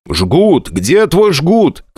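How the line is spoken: Shouting. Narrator (Russian): кричал я

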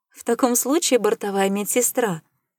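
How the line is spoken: Laughing. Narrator (Russian): засмеялась Даяна

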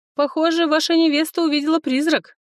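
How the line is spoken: Nasty laugh. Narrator (Russian): Гадко рассмеялся Лацис

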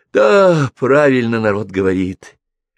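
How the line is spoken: Sighed. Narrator (Russian): вздохнул Михалыч

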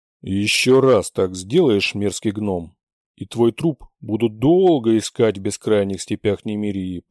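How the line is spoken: Deep bass voice. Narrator (Russian): пробасил Рэй

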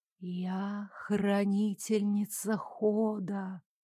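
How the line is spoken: Whisper behind door. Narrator (Russian): продолжил шептать неведомый некто, скрывающийся за огненным прямоугольником пока закрытой двери

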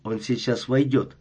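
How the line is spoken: Plain. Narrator (Russian): сказал Перри

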